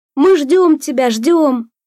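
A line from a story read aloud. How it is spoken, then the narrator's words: Deliberately loud. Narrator (Russian): нарочито громко говорил Сорокин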